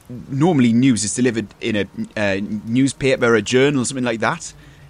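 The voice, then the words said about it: Put-on character accent. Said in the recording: “You were shocked by my accent, because I certainly am. I don't know if I'm going to be able to keep this one up for very long”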